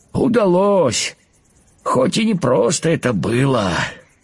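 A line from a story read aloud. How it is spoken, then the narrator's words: Tired reply. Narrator (Russian): устало ответил кузнечик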